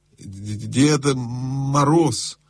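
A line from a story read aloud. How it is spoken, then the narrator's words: Stammering answer. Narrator (Russian): запинаясь, ответил лис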